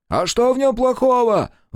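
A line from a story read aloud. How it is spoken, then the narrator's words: Shouted out. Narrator (Russian): выкрикнул с места один из депутатов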